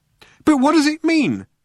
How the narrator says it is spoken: cried Arthur

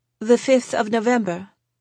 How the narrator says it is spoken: Izzy said

